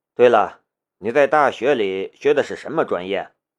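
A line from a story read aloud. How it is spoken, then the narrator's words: Plain. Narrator (Chinese): 关灵山说道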